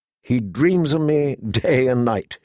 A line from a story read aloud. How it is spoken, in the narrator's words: she laughed